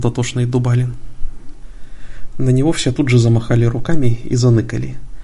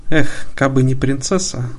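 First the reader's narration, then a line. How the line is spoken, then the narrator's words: Sighing. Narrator (Russian): вздохнул Милимон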